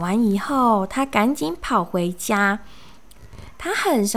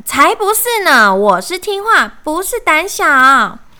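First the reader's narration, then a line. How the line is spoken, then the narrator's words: Little frog, angry shout. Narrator (Chinese): 小青蛙很生气的大喊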